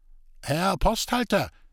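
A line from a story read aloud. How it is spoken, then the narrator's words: Worried call from carriage. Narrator (German): rief des Weiteren nicht weniger beunruhigt der handlungsreisende Köpke aus Magdeburg aus dem Wagen heraus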